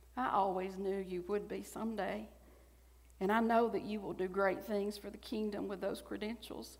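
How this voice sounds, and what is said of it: Stronger Southern accent. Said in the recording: “I've slipped into a little bit stronger southern accent while reading this”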